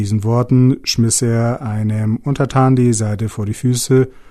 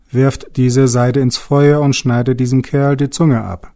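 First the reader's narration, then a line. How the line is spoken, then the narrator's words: Angry shout. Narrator (German): rief er zornig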